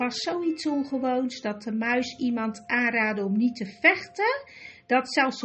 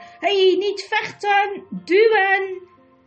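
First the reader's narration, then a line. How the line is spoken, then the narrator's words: Sudden loud shout. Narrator (Dutch): Rippertjeep opeens luidkeels schreeuwde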